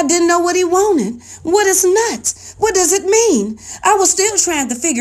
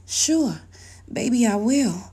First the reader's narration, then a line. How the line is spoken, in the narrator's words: Wanting to please him, I whispered into his ear